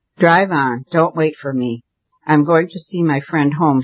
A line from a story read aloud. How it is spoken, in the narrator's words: said calmly enough